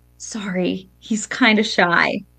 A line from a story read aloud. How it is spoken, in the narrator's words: I kind of so quietly said